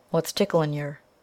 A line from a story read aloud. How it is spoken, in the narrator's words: he asked in his ordinary tone, yet gravely